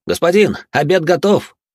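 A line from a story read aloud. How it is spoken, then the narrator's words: Shouted loudly while running. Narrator (Russian): На бегу громко прокричал он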